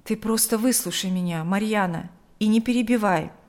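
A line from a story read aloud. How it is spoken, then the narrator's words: Forced calm. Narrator (Russian): Игорь старался говорить спокойно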